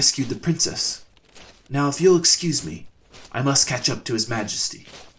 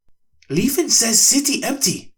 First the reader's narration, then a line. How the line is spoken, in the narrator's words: Trendon called out